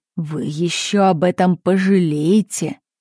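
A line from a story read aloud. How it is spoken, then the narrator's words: Reluctant, through gritted teeth. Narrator (Russian): Чиновник неохотно подчинился, проговорив сквозь зубы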